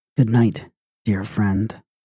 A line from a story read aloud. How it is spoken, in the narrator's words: She sank back with a sigh, and she murmured again